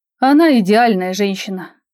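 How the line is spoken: Dreamy sigh. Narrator (Russian): мечтательно вздохнул

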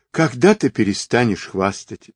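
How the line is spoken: Sigh. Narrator (Russian): вздохнула Каймиш

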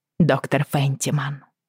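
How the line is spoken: Quiet call. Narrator (Russian): тихо позвала я

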